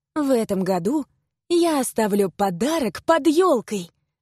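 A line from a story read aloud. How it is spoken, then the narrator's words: Joyful announcement. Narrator (Russian): радостно возвестила я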